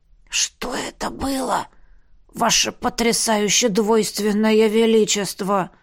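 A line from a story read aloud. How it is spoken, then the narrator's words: Stunned whisper. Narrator (Russian): прошептал Эльдер, оторопело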